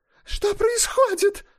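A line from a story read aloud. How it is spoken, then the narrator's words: Shrill shrieking. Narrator (Russian): повторяла она пронзительным визгливым голосом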